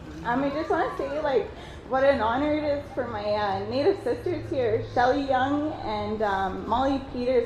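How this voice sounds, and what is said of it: Emotional, choked-up speech. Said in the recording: “sorry, I don't mean to get emotional. I'm always like this. I'm always like that emotional person”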